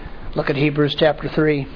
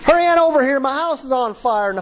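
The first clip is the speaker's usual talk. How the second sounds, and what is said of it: Put-on redneck accent. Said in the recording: “Pardon my redneck accent.”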